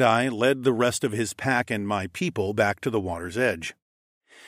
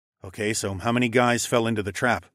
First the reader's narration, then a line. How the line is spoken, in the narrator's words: I asked